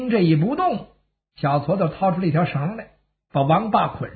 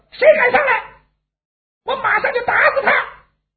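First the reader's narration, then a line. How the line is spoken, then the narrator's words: Shouting. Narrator (Chinese): 小矬子喊上了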